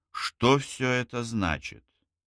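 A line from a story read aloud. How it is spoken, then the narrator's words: Icy threatening question. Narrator (Russian): Наконец спросил он ледяным тоном, полным угрозы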